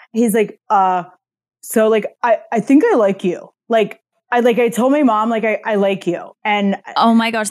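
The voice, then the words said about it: Impression of a friend. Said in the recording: “such a good impression of him”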